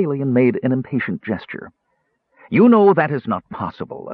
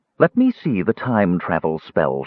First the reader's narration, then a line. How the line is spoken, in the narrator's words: she said, her voice taut